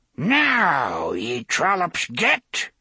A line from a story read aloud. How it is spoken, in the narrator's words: cries shrilly, cackling